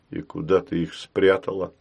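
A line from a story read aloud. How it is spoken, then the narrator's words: Quiet. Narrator (Russian): спросил он тихо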